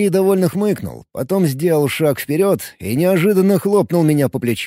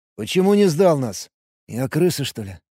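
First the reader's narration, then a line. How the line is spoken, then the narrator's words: Grumbled. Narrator (Russian): Буркнул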